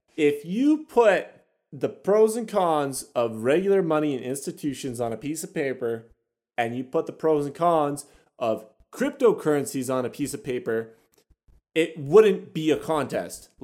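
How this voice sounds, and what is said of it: Raised, upset voice. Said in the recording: “I'm raising my voice because I'm getting upset.”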